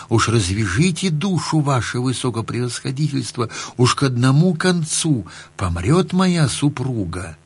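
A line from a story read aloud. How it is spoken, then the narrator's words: Humble whisper. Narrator (Russian): А купец и спрашивает его шепотком смиренно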